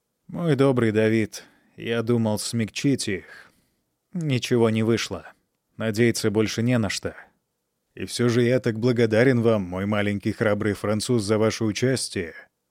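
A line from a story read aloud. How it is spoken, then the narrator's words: Plain. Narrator (Russian): ответил Бюргер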